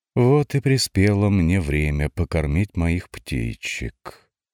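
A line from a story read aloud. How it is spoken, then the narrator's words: Purring, menacing and cheerful. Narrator (Russian): промурлыкала страшно и весело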